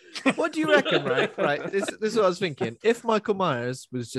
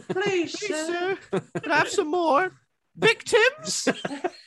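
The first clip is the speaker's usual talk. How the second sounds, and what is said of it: Silly childlike Oliver Twist voice. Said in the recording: “Still got the kid's voice ... my voice is ridiculous ... he's got a silly voice ... He talks like Oliver Twist.”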